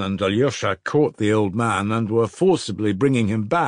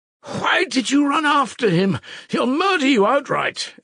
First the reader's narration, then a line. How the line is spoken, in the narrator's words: Ivan cried wrathfully at his father